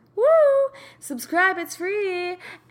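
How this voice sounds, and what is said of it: Game show host voice. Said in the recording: “I love my game show voice today”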